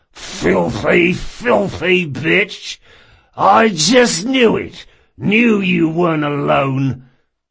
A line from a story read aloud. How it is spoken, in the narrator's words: He spat